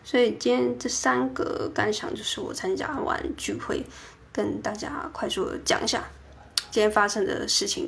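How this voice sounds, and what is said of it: Quiet, soft, faint voice. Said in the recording (Chinese): “讲的话也比较小声，所以大家不知道听起来会不会声音很很小，很很微弱”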